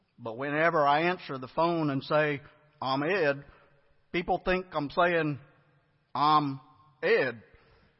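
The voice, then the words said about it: Put-on Texas accent. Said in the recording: “with a genuine Texas accent”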